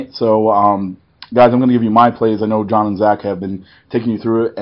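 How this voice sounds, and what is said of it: Hoarse, partly lost voice. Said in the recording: “my voice does not have that same sultry, beautiful tone that it normally has. Little bit of a lost voice situation ... apparently screaming over music ... my voice is a little bit off tonight”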